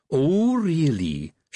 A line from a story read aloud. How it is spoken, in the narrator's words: she said, her voice all treacle